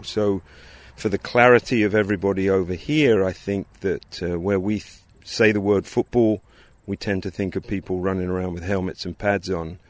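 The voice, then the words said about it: English accent. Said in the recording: “As you might be able to pick up from his accent, ... grew up in England”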